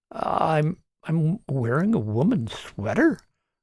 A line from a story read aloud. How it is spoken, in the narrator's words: Martin muttered to himself